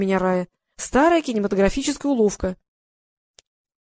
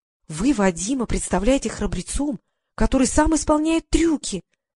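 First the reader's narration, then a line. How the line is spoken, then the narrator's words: Whispering. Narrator (Russian): прошептала я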